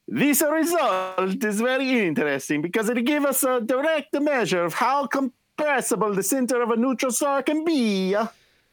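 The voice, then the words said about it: Put-on Italian accent. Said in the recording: “I've never heard a more authentic Italian accent”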